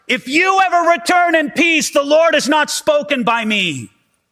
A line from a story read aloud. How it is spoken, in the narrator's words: Micaiah yells out